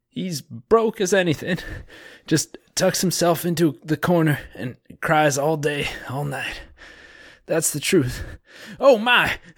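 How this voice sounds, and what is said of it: Put-on Southern American accent. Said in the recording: “I became like more Southern as it went along ... You did sound Southern, but you sold that.”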